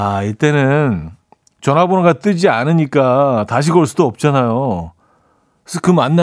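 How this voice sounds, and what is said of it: Usual voice. Nothing is said of it.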